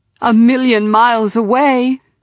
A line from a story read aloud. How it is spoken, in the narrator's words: cried Elena